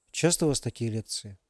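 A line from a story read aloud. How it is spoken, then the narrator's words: Whispered question. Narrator (Russian): шепотом спросил Ярослав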